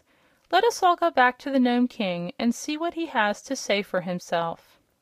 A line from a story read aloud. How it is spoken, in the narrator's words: said Billina in her brisk little voice